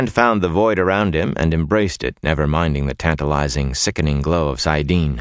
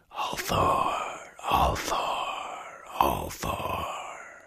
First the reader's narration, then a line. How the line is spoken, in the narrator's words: a whispering thread